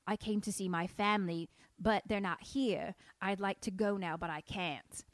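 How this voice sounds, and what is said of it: Cockney accent drifting into Southern. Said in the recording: “your Cockney goes into Southern”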